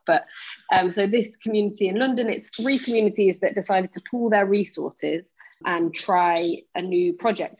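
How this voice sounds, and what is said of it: English Nottingham accent. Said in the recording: “You'll hear from my accent that I'm actually not from far from you. I'm from Nottingham myself.”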